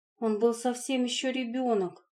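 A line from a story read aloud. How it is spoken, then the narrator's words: Sighing. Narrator (Russian): вздохнула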